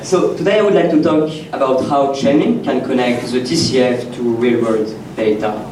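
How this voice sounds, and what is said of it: French accent. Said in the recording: “I'm from France, as you probably noticed from my accent.”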